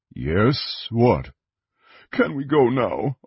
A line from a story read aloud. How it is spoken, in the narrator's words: Augur whimpered, shivering